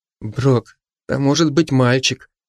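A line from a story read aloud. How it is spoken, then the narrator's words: Confused, embarrassed whisper. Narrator (Russian): растерянно и смущенно прошептала Маша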